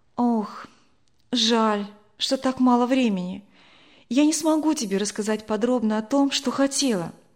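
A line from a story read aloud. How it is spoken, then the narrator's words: Sighing. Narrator (Russian): вздохнула Надя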